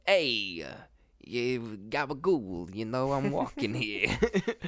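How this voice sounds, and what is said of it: Goblin character, New York accent. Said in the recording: “That was like the accent that I gave it, gave the goblin. It was like this, you know, this like New York type accent.”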